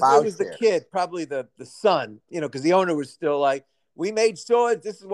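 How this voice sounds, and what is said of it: Usual voice. Nothing is said of it.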